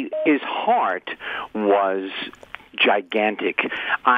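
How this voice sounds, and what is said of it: Usual voice. Nothing is said of it.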